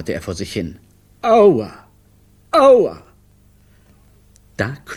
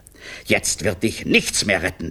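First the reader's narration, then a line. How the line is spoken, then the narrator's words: Hissing male voice. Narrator (German): zischte er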